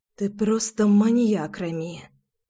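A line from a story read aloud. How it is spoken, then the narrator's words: Gasping whisper. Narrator (Russian): судорожно прошептала Руслана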